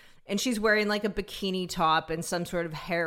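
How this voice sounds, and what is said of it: Usual voice. Nothing is said of it.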